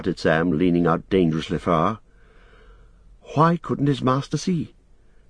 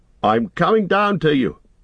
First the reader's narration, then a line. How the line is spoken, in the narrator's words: shouted Sam